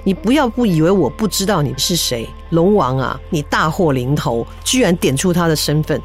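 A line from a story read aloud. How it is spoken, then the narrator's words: Cold. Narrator (Chinese): 袁天罡只冷冷的看着他说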